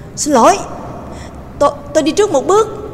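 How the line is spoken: Sudden cry. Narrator (Vietnamese): Trương Lập đột nhiên kêu lên

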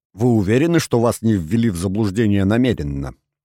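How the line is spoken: Plain question. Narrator (Russian): спросил полицейский

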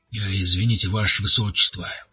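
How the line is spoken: Tense voice. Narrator (Russian): произнес он напряженным голосом

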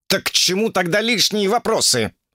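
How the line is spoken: Agitated yelling. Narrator (Russian): заорал взвинченный Укун

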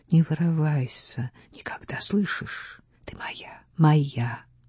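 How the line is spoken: Muffled whisper. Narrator (Russian): Он приглушенно прошептал

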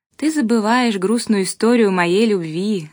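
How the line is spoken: Laughing. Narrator (Russian): засмеялась я

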